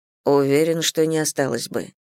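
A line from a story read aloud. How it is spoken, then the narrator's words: Quiet. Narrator (Russian): тихо сказал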